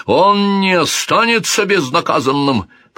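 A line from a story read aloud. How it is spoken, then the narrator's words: King's shout. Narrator (Russian): прокричал король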